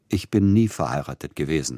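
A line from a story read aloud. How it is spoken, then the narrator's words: Plain. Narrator (German): sagte Tschaikowski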